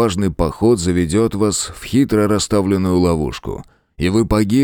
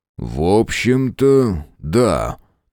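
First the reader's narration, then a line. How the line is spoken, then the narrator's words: Slow speech. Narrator (Russian): медленно проговорил Фрейзер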